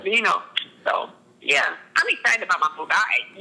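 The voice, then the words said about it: Excited, animated voice. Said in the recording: “You can hear the excitement in my voice.”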